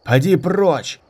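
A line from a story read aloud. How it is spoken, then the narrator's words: Shouted. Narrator (Russian): крикнул кто-то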